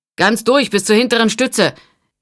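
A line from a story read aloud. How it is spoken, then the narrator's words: Calling after someone. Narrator (German): rief Tolland ihm hinterher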